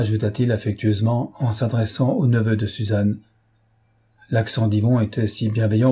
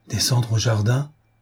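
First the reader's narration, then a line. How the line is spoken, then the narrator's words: Frightened exclamation. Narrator (French): s'écria Suzanne effrayée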